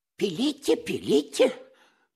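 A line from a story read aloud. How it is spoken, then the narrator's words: Timid babbling. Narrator (Russian): пролепетал Паниковский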